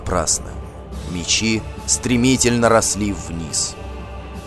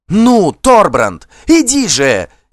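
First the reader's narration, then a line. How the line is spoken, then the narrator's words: Shouted. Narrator (Russian): крикнула она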